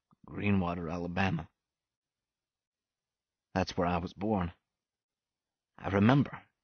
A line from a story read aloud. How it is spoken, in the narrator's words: Willie Johnson murmured the words